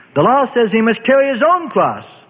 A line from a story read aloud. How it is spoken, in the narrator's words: bellowed a Pharisee in rage